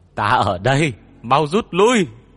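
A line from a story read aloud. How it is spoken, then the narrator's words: Shouted. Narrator (Vietnamese): Hét … Bách Cương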